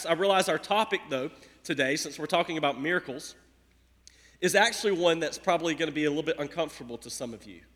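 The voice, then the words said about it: Scratchy hoarse voice. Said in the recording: “my voice is like scratching”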